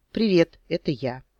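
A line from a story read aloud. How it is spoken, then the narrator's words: Casual everyday tone. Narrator (Russian): сказал самым будничным тоном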